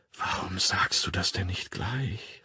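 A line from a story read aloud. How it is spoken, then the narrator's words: Murmured. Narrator (German): raunte sie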